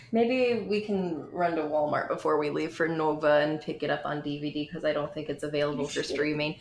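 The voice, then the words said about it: Michigan accent slipping out. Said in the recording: “Sorry, I got very Michigan for a second. ... Sometimes it slips out. ... There are certain words where I do emphasize my Michigan accent”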